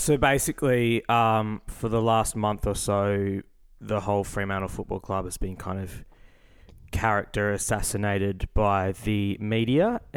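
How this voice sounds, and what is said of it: Gravelly, hoarse voice. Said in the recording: “my voice is a little bit gravelly, maybe even a little bit sultry at the moment ... I'm a little hoarse because I've been screaming”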